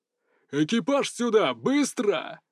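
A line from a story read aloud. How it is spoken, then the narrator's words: Booming shout, emperor. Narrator (Russian): Зычным голосом прокричал император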